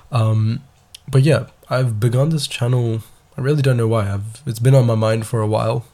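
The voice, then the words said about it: Stuffy, unusually deep voice. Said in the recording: “sorry for my voice by the way. I have hay fever and um, this is not how I usually sound. I usually sound a little less like Arjun Das”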